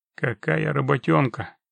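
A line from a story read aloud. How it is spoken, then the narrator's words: Unfriendly grumble. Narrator (Russian): буркнул Геральт не слишком приветливо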